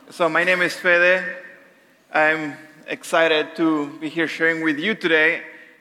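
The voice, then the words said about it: Speaks with a noticeable accent. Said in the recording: “I probably have the sexiest accent”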